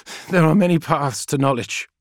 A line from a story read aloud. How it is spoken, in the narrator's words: panted Call